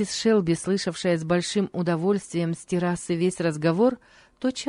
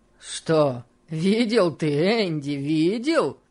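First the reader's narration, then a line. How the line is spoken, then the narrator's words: Exclamation. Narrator (Russian): воскликнул Сэм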